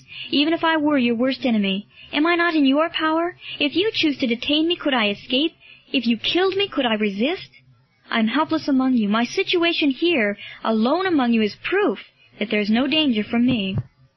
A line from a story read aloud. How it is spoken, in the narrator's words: cried Marcellus